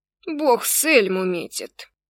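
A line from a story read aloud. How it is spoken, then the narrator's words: Grumbling. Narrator (Russian): ворчал Норрелл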